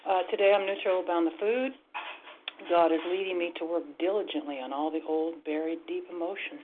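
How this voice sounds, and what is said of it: Anxious-sounding voice. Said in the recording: “I still have a lot of anxiousness, as you can probably hear in my voice”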